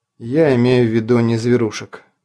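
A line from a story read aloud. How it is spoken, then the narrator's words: Weary. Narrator (Russian): устало проговорил Лобов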